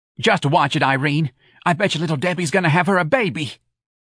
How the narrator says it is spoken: Santa cried

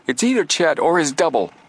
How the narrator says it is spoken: Joe exclaimed

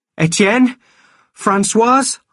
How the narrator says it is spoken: shouted

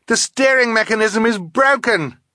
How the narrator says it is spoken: she yelled

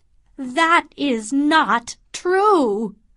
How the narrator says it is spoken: cried Morris

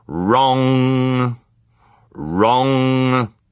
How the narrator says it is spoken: the clock thundered

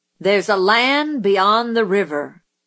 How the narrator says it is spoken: Zebo cleared his throat and read in a voice like the rumble of distant artillery

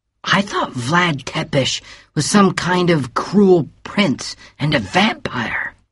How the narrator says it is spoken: whispered Bill

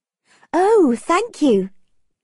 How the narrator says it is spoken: exclaimed Margaret

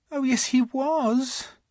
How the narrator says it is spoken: she said miserably

